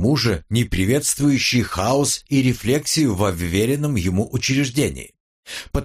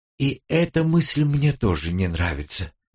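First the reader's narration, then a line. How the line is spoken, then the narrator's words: Sigh. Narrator (Russian): вздохнула Ряжская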